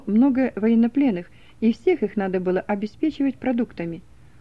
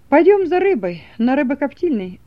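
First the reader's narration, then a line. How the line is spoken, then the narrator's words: Joyful speech. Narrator (Russian): радостно сказал ему экспедитор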